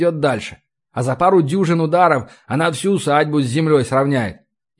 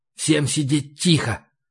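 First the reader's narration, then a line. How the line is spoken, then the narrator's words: Whisper. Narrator (Russian): прошептал я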